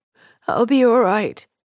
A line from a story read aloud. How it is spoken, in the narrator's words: croaked